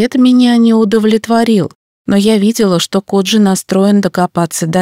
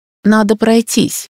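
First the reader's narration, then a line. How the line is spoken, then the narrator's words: Muttered. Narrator (Russian): пробормотала я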